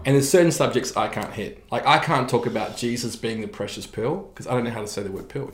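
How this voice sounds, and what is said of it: Slight New Zealand accent. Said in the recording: “Still got this like little Kiwi accent. ... In some of my words. And I try and pronounce some words and they don't come out right. ... I've got a little bit of Kiwi accent. ... the Kiwi vowels are so different”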